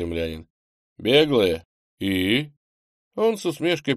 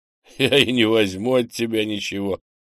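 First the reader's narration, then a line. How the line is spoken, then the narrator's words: Chuckle. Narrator (Russian): хохотнул Андрей, прервав беглеца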